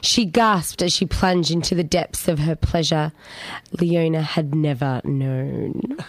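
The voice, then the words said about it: Husky, low reading voice. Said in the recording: “sexy voice for it ... It's gone a little bit huskier.”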